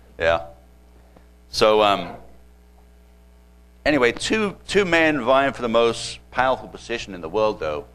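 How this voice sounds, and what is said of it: British accent. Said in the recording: “I'm originally from Britain. Not from Arkansas. Okay, this is a British accent. Not Texas either.”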